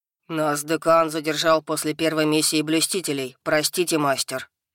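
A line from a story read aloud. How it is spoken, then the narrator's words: Troll booming apologetically. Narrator (Russian): прогудел оправдание тролль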